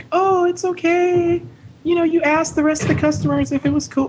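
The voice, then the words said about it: Imitates another person's voice. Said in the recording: “my best manager impression”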